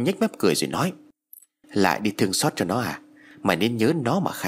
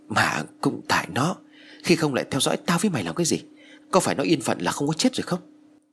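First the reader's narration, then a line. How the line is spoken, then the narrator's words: Trembling. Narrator (Vietnamese): Phong run rẩy nói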